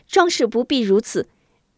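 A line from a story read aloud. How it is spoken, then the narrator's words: Hurried interruption. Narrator (Chinese): 张秀秀急忙拿话拦住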